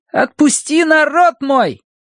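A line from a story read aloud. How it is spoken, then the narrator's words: Boys shouting. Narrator (Russian): мальчишки возраста Колина кричали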